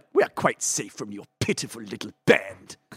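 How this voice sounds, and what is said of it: Palpatine character impression. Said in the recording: “When I do Palpatine... it's not a good impression... Was good. That was terrific.”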